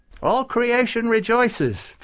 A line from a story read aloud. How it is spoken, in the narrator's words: Farouk said happily